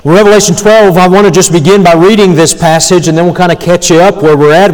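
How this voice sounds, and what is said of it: Strained, worn-out voice. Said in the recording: “forgive my voice a little bit ... help it be killed in choir practice today ... my voice is feeling it tonight”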